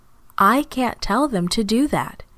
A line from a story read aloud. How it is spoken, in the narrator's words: Jesus answered